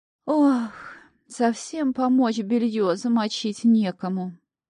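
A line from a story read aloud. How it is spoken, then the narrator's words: Fake sigh. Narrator (Russian): притворно вздохнула хозяйка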